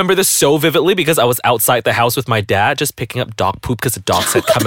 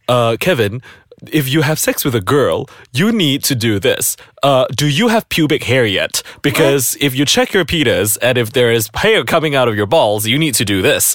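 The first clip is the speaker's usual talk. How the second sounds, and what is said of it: Imitates another person's voice. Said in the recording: “Why does your dad sound like Dr. Phil? ... That's my impression of my dad”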